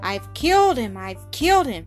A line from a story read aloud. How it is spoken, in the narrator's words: repeated, groaning aloud in an agony of terror and remorse